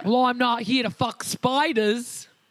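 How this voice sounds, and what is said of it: Put-on Australian accent. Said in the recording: “Maybe I should try an Australian accent. ... It was the accent, wasn't it?”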